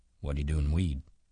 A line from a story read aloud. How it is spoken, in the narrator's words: Slim asked calmly